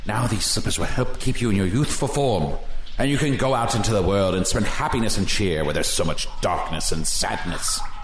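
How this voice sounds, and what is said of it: Spooky put-on voice. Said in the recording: “that spooky voice”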